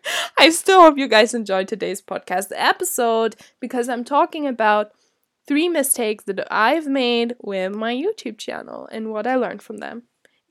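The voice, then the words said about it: Nasal, congested voice. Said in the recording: “I am allergic to pollen ... my voice is really nasal ... it sounds a bit weird ... I'm just a human with a blocked nose”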